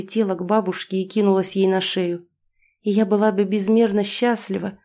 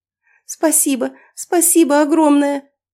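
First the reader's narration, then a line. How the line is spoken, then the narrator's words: Exclamation holding back tears. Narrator (Russian): воскликнула, еще больше собирая волю в кулак, чтобы не разреветься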